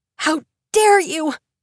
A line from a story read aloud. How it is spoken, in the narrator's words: Vivi screams